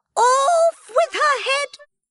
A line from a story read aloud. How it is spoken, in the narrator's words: screamed the Queen